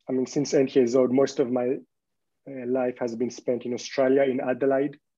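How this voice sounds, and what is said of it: Very strong foreign accent. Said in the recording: “I have a very strong accent”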